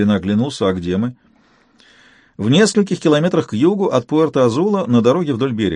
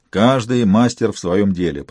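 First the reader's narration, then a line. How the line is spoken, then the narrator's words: Muttering. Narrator (Russian): пробурчал я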